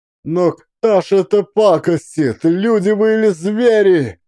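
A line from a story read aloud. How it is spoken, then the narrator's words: Desperate shout. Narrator (Russian): Закричал в отчаянии Максим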